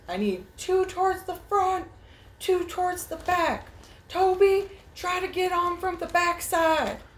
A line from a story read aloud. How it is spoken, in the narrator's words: he yells back